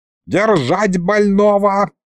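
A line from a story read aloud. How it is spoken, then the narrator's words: Woman's yell. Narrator (Russian): завопила лекарша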